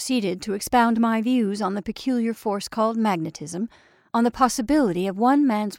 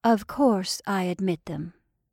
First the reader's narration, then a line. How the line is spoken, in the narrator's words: she answered calmly